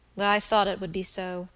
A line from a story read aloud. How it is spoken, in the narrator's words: said the young man, with a weary sigh